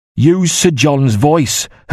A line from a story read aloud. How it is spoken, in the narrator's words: Hook said harshly